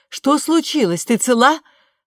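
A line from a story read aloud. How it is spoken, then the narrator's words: Shout from behind door. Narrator (Russian): Мэгги крикнула из-за двери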